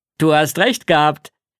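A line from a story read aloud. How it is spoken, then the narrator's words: Called out. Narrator (German): rief Papa mir zu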